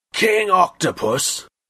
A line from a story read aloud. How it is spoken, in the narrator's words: Daku Waka roared